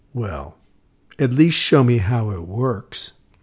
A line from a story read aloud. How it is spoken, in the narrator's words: she suddenly, very calmly, said